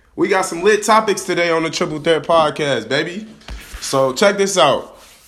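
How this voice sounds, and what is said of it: Hoarse, fading voice. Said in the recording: “I'm kind of sick right now. That's kind of why my voice sounding like this. I'm losing my voice a little bit, but I'm getting over a cold.”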